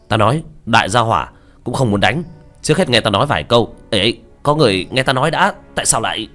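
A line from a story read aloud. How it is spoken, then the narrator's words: Loud call to crowd. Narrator (Vietnamese): Diệp Thiếu Dương hít một hơi, cao giọng hướng mọi người hô lên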